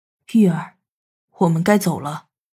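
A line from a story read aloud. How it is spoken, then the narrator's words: Soft, smiling. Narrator (Chinese): 南宫义又恢复了一脸的笑容，柔声说着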